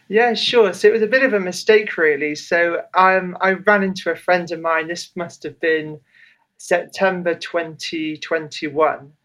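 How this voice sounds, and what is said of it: British accent. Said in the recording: “I always love to hear a British accent”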